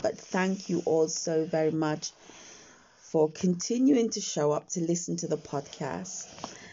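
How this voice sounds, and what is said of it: Slightly croaky morning voice. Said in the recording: “my voice might sound a little bit croaky because I've woken up ... I haven't sort of got my day voice on yet. So it's still the morning voice”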